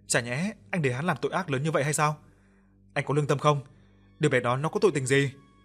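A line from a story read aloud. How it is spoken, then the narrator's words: Shout. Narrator (Vietnamese): Phùng hét lên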